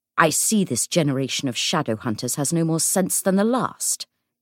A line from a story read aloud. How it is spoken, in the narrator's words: he said sharply